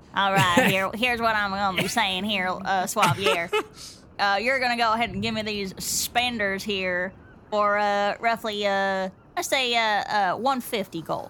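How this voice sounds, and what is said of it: Put-on Southern accent. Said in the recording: “southern accent, but in Bart's pitch”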